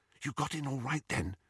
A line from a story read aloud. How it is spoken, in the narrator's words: Hermione whispered to Harry